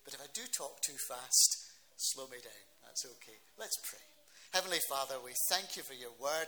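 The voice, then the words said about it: Scottish accent. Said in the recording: “the accent might be a bit of a problem ... we understand your accent perfectly ... you are obviously well tuned in to Scots accents”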